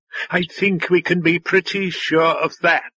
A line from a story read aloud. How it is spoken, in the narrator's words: the drone said with a laugh in its voice